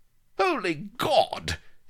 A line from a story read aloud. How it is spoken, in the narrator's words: exclaimed Colonel Blood weakly